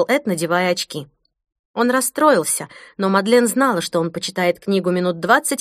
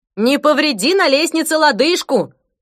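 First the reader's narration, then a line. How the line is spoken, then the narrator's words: Shout from behind door. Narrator (Russian): выкрикнул Эд из-за двери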